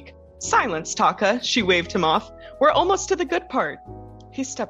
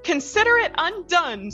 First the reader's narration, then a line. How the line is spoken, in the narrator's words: Sonia cried